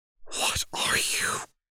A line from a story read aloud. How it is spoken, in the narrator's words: Lux hissed